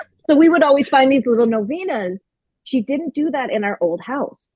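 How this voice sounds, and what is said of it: Usual voice. Nothing is said of it.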